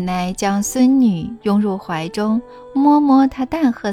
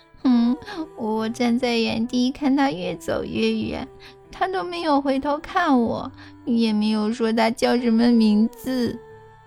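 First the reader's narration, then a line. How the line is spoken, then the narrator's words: Crying. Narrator (Chinese): 小柳巴米拉说完后哭了起来，边流泪边说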